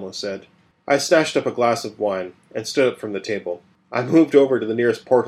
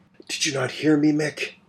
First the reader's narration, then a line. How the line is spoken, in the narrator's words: said in a hoarse whisper